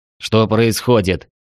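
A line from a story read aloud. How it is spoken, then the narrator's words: Displeased question. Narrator (Russian): недовольно спросил я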